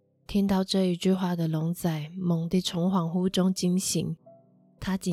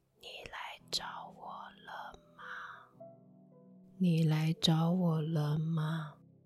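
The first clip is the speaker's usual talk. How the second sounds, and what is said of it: Soft whispered female voice. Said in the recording (Chinese): “一个女生小小声的说”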